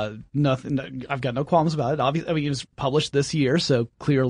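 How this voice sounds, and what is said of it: Usual voice. Nothing is said of it.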